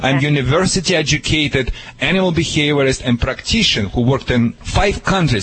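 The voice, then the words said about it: Noticeable accent that sounds funny. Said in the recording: “despite of my accent, which may be funny, sounds funny.”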